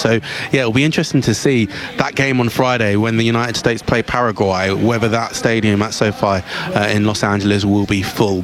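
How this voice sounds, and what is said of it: Slightly hoarse voice. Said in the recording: “my voice is a little bit hoarse,... it's because I've had a few rounds of karaoke.”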